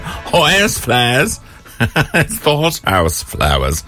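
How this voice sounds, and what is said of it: Put-on Cockney accent. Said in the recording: “if I suddenly got into a Cockney accent.”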